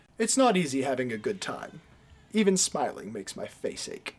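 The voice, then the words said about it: Imitates a film character's voice. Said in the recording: “That was perfectly delivered ... Good impression.”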